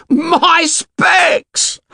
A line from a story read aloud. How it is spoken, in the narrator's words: howled Piggy